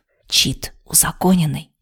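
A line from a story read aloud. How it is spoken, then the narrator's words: Whisper. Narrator (Russian): почему-то шепотом выдала Хейт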